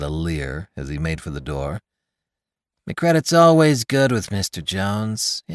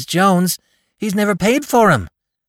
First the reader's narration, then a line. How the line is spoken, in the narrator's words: cried Con